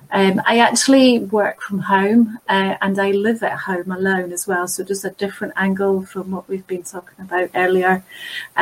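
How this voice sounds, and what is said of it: Scottish accent. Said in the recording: “despite my Scottish accent”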